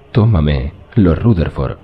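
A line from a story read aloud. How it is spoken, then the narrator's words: Hissing whisper. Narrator (Spanish): susurró ella con voz siseante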